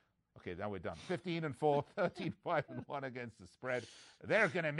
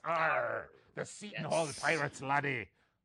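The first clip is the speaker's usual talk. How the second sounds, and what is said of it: Pirate voice. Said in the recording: “do my pirate voice.”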